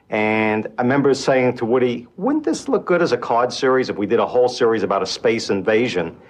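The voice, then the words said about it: New York accent. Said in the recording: “That guy's accent, though. ... What is that accent? ... I think it's like a New York thing.”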